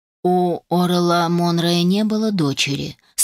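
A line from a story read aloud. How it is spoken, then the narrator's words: Dry. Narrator (Russian): сухо произнес Салах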